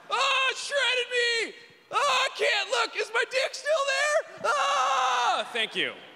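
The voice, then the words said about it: Brad Pitt impression, pained yelling. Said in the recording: “my impression of Brad Pitt getting his leg stuck in a jet ski”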